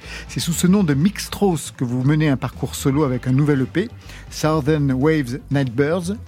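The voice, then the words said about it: Poor English pronunciation, French accent. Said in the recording (French): “Mon accent est pourri, je le sais.”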